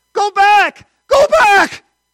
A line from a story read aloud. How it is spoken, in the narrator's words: he screamed